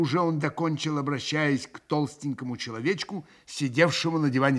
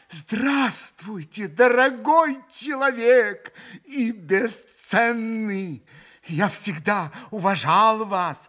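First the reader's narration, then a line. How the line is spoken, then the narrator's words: Joyful, quick reply. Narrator (Russian): Радостно и стремительно отозвался Митя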